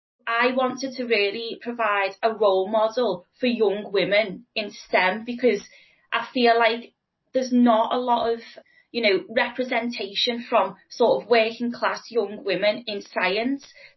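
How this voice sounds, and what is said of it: Strong Scouse accent. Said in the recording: “I've got a strong Scouse accent, which, you know, I'm not prepared to change”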